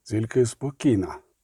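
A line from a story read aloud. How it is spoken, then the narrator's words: Quiet repetition. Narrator (Ukrainian): тихо повторив Геральт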